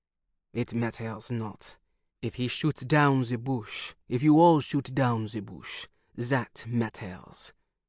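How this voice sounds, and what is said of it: Heavy French accent. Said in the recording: “he said in a heavy French accent.”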